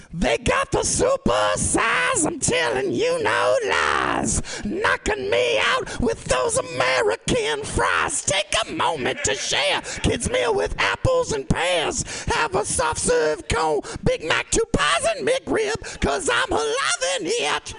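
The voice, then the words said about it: Sung hard rock band impression. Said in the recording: “my impression of AC/DC doing a McDonald's commercial”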